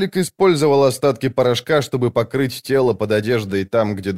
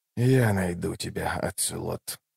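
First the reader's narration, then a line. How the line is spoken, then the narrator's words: Whispered. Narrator (Russian): прошептал Ном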